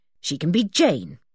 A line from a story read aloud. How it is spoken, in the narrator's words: said Joanna firmly